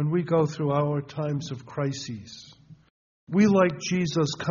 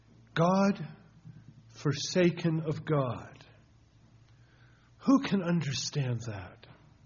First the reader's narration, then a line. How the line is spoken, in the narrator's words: exclaimed